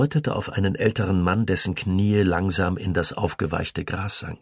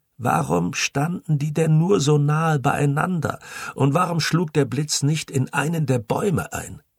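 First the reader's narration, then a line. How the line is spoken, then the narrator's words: Sobbing. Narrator (German): Er schluchzte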